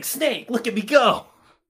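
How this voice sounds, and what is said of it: Imitates a video game character's voice. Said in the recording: “my best Raiden impression”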